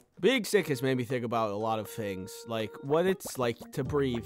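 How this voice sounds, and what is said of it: Sick, congested voice. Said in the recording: “I don't know if you could tell from my voice right now, but I'm pretty sick.”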